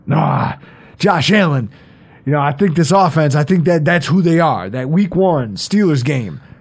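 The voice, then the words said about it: Poor Stephen A. Smith impression. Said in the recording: “I know I'm doing a terrible Stephen A. Smith. He's terrible. He doesn't deserve a good impression.”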